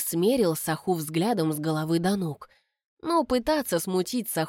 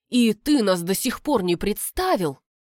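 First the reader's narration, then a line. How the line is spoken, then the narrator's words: Gleeful hissing gossip. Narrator (Russian): змеиные кумушки шипели с удвоенным удовольствием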